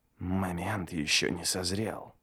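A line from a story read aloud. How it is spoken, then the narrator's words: Whisper. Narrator (Russian): прошептал Ништо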